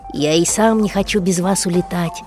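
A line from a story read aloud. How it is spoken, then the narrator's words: Sad. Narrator (Russian): грустно сказал космонавт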